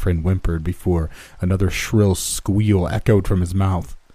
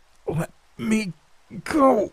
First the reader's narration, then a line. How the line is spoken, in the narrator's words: begged, battling harder against my subduer with every word